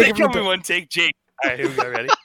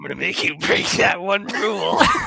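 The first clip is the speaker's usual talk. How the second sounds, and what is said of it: Poor Joker villain voice impression. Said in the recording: “my Joker impression ... you sound like a meth head in a park. You do not sound like the Joker. ... That was bad.”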